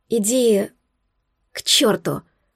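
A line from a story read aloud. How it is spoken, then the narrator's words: Dazed voice. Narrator (Russian): Получумным голосом отозвалась я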